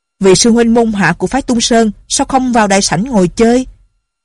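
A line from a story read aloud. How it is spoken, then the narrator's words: Angry, throat-clearing, loud. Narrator (Vietnamese): Không dằn được tức giận, hắn giọng một cái rồi lớn tiếng nói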